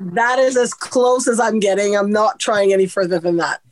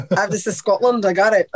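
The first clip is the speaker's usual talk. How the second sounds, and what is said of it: Attempted Scottish accent. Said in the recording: “better than our accent ... That is the best attempt at our Scottish accent on any show”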